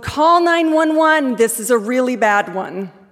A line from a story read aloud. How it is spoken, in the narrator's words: I hollered across the road